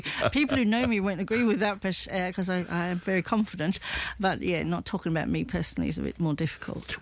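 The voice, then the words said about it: English-sounding accent. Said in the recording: “The accent always led me to believe that you had spent a lot of time in the UK.”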